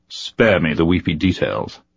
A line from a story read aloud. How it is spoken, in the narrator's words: Sinar said coldly